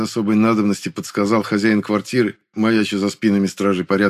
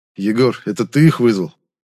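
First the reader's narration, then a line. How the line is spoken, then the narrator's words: Lifeless, flat question. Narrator (Russian): безжизненным тоном спросил я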